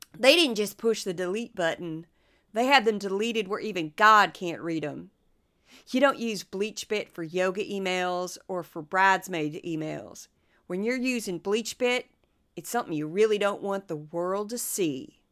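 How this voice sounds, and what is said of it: Trey Gowdy impression. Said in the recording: “my best Trey Gowdy impersonation”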